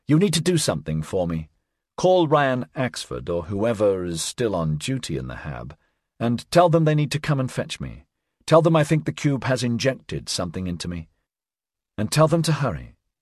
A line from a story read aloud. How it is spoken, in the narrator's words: she said calmly